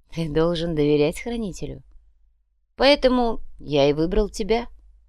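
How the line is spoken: Calm. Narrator (Russian): спокойно ответил Бог

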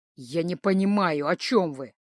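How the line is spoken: Through clenched fangs. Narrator (Russian): процедил он сквозь клыки

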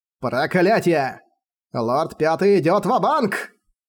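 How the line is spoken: Shouting parrot. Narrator (Russian): закричал попугай

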